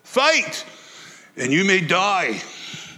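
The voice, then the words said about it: Mel Gibson's Braveheart Scottish accent. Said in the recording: “my accent's as good as Mel's was”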